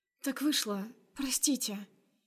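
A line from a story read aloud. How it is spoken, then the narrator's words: Barely audible babble. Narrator (Russian): Лепечу еле слышно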